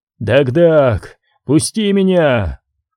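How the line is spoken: Shouting again. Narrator (Russian): снова крикнул

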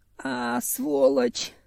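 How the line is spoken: Groaning. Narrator (Russian): застонал Семен

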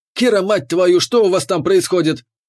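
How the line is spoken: Yelling over the comm. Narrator (Russian): заорал капитан в ком

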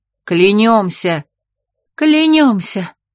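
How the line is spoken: Confident chorus. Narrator (Russian): кадетки уверенно и дружно выдохнули в ответ

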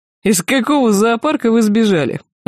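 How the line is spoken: Laughing commando. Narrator (Russian): рассмеялся спецназовец

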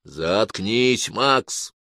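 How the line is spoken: Growled. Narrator (Russian): прорычал Альбин

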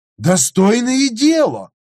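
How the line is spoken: Joyful agreement. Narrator (Russian): радостно согласился

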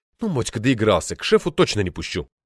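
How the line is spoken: Growled. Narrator (Russian): Рыкнула на него Мария Ивановна

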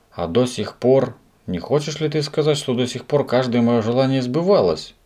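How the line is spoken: Excited question. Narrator (Russian): взволнованно спросил господин Пепперминт

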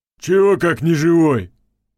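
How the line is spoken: Loud bark. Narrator (Russian): гаркнул детина

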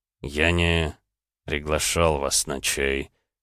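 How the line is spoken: Muttered. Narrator (Russian): пробормотал Роман

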